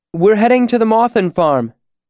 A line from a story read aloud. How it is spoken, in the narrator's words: called out